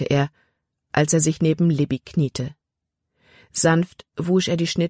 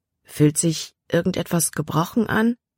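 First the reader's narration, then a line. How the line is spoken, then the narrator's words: Plain question. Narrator (German): fragte Caleb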